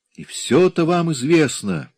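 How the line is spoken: Bitter helpless exclamation. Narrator (Russian): с невольной от бессилия горечью воскликнул Имре

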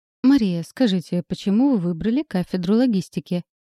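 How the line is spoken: Formal-toned question. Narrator (Russian): Официальным тоном интересуется Роман

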